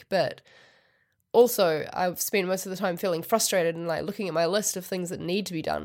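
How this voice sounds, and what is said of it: Sick, unwell-sounding voice. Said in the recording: “as you might be able to tell from my voice, not brilliant... health-wise”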